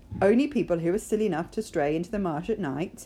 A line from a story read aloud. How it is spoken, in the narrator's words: said Mrs